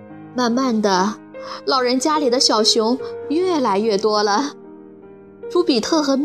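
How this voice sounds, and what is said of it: Usual voice. Nothing is said of it.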